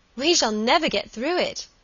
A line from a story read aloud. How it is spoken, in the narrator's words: she cried